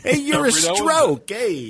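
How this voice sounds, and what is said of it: Put-on New York accent. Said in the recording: “Listen to him with his New York accent.”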